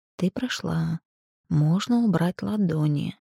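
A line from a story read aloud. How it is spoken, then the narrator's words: Whisper in the ear. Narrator (Russian): прошептал знакомый голос в ухо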